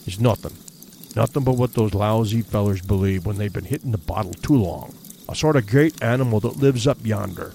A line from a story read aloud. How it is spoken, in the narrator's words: all he said, or whispered rather, for his voice sank very low, was